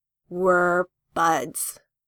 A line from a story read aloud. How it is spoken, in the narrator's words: Jason says, slowly